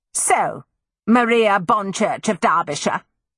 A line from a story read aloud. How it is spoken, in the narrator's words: she screamed